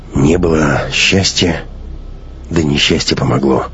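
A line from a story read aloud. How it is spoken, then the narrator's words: Tearful mutter. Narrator (Russian): пробормотал отец, пряча глаза, в которых стояли слезы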